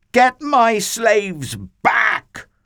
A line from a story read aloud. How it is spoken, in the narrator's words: He screeched